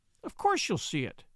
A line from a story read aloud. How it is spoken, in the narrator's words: snapped Mary indignantly